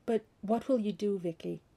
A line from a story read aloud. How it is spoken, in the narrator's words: Her voice had quavered a little, but she'd kept it steady